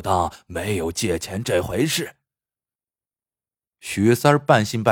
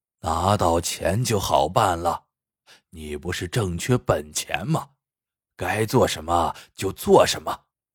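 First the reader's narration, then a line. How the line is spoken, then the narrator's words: Hearty laughter. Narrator (Chinese): 老秀才呵呵大笑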